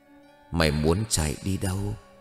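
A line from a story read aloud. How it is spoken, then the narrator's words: Soft whisper. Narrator (Vietnamese): khẽ thì thầm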